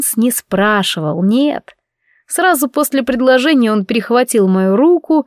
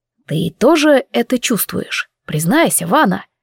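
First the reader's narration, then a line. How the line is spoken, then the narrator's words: Hoarse low voice. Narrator (Russian): хриплым низким голосом произнес Нейтер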